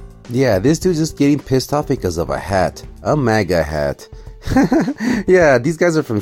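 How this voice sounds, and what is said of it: Usual voice. Nothing is said of it.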